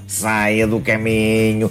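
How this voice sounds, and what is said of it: Robot voice. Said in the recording (Portuguese): “tem que fazer voz de robô”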